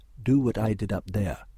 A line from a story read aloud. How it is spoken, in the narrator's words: she said